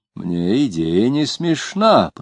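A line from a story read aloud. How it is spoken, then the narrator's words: Muttered. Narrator (Russian): пробормотал писатель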